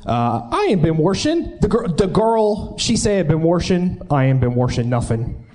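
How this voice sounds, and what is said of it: Pittsburgh Yinzer accent. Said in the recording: “Yinzer accent.”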